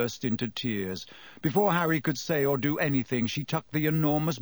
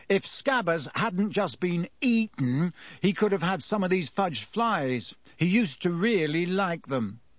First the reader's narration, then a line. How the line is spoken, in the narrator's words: Ron chose that moment to say loudly